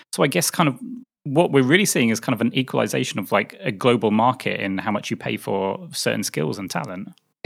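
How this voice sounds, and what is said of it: British accent. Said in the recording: “as people can probably tell from my accent, I spend a lot of time listening to public opinion in the UK”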